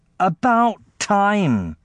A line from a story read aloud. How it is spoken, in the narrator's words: said the queen, in a nasty, whining voice